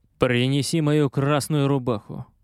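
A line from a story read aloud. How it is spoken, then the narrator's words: Calm command. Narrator (Russian): Тот спокойно приказал старшему матросу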